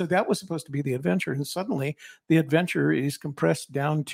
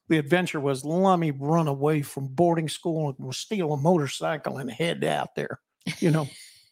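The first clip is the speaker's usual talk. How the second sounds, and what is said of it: Southern Texas accent. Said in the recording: “the Texas accent. ... Develop a Southern accent. ... Southern accent.”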